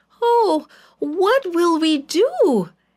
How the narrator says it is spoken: cried

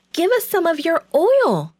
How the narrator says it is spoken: they begged

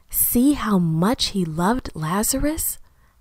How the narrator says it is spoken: Someone whispered

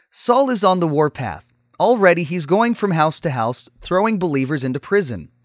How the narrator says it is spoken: the speaker said

